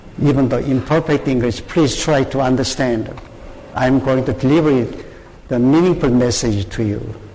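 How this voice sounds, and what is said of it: Korean-accented English. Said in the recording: “do not expect the perfect English tonight. Please understand my pronunciation and the accent.”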